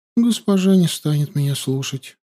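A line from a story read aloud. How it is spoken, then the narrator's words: Sad reply. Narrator (Russian): печально ответила Суви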